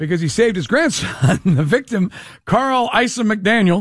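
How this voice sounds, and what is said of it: Usual voice. Nothing is said of it.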